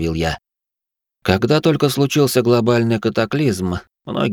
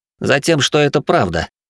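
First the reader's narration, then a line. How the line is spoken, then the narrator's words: Smirking, pressing voice. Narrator (Russian): хмыкнул я и вновь надавил голосом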